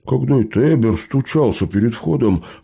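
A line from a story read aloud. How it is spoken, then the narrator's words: Snort. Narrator (Russian): хмыкнул Лео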